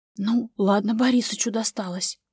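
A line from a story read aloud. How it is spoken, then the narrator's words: Whispered in ear. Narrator (Russian): зашептал ей в другое ухо начальник первого швейного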